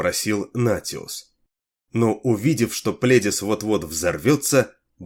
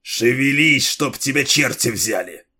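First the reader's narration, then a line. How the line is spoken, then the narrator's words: Hiss. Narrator (Russian): прошипел Пледис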